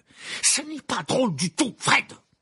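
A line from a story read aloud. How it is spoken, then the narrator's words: Exclaiming. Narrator (French): s'écria-t-il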